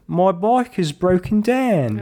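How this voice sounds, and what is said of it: Put-on Cockney accent. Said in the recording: “Was that your Australian or New Zealand accent? ... Cockney. ... That was your Cockney accent.”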